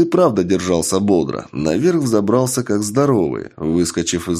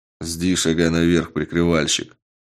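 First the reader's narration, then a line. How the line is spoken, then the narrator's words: Muttered grumble. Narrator (Russian): буркнул на это Карат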